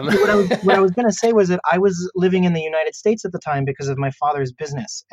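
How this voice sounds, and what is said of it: American accent in English. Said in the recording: “I have an American accent when I speak English”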